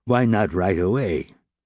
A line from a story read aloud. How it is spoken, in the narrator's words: Javert replied, in his most imperious tone